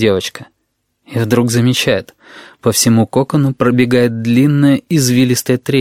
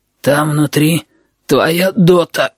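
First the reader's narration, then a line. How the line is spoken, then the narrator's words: Hoarse voice. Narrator (Russian): говорит Little People хрипун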